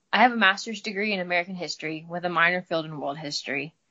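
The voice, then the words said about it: Midwestern American accent with drawl. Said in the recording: “you have a nice accent ... I'm from the Midwest, so got a little bit of a drawl”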